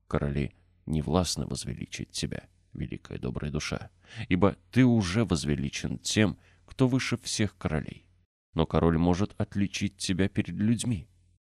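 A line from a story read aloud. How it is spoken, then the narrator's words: Whisper in ear. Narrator (Russian): Король шепнул ему на ухо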